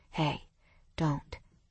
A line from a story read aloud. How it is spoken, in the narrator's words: Mason murmured